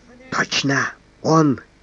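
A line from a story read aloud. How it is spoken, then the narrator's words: Predatory whisper. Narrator (Russian): хищно прошептал надворный советник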